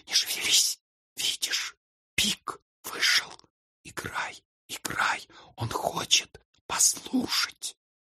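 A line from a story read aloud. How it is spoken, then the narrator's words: Whisper. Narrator (Russian): прошептала ему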